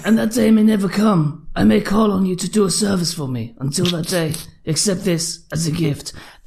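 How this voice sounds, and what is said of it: Marlon Brando Godfather impression. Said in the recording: “a voiceover from Marlon Brando ... That is spot on.”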